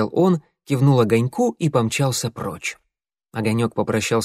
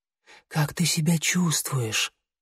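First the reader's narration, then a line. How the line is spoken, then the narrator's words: Whispered question. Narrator (Russian): шепотом спросил Огонек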